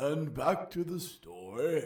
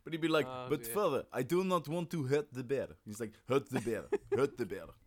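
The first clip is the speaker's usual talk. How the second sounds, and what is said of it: Put-on Dagestani accent. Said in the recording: “That's a lovely Dagestan accent there, sir.”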